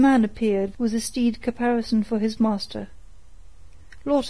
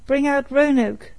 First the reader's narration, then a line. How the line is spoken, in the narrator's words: he cried aloud